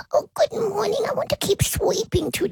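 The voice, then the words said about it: Pet dog's imagined voice. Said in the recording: “Do you want to talk to Noni for us? ... That's how he talks. ... It's pretty good.”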